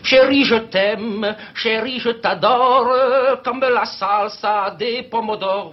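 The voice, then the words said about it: Put-on foreign accent. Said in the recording (French): “Je m'excuse de prendre l'accent”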